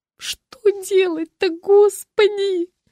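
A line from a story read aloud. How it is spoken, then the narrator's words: Moaning. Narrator (Russian): простонала Маша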